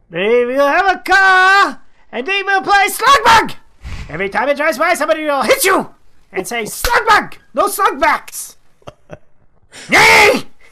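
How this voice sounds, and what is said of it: Screaming. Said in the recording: “I'm screaming. I apologize. I'm screaming into the camera and the microphone.”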